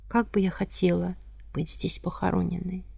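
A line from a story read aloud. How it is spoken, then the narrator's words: Quiet woman's voice. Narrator (Russian): Елизавета Федоровна тихо сказала мужу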